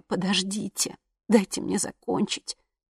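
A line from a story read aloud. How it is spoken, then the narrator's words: Only a whisper. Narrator (Russian): вышел только шепот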